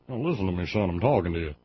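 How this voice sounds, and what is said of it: Put-on Southern drawl. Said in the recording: “I'm saying that with that accent for a reason, because that's where the Republican Party lives anymore”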